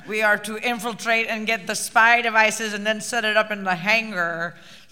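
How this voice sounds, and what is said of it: Put-on Irish accent. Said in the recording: “I'm dipping into your accent ... We all got a bit of the Irish ... We were all soiled by the Irish”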